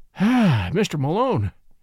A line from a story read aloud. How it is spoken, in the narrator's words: he answered, heaving a deep sigh of relief